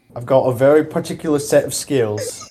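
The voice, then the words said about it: Bad put-on Cockney accent. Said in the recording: “that was a terrible Cockney accent”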